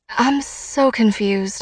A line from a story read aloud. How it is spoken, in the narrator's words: I mumble